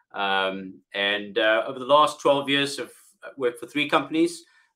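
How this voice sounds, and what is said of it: South African accent. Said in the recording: “originally from South Africa, as you can hear from my accent”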